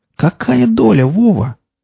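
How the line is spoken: Shrill squeal. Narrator (Russian): Карусель взвизгнул

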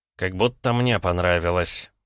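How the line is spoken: Through gritted teeth. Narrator (Russian): процедил сквозь зубы Краснов

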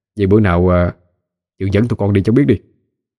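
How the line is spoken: Smiling, offhand remark. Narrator (Vietnamese): hắn cũng mỉm cười nói đại một câu

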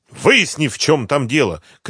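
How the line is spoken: Shouted. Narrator (Russian): крикнул

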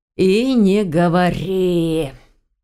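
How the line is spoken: Hostile growl, young man. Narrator (Russian): недобро рыкнул парень

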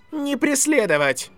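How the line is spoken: Shouted command. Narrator (Russian): закричал Драко своим солдатам

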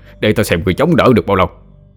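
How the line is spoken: Bursting mocking laughter. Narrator (Vietnamese): Thầy Huấn cười phá lên

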